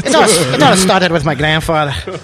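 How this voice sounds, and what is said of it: Bad put-on Irish accent. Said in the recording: “Why do you have an Irish accent? ... It's more passionate. But it was the worst Irish accent ever.”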